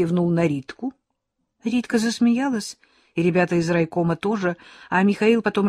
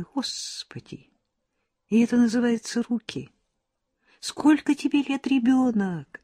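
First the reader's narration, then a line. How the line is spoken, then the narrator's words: Very quiet. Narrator (Russian): И говорит тихо-тихо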